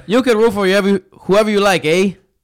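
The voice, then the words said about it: Poor put-on Canadian accent. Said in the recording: “That was terrible... That was awful, terrible... My Canadian accent.”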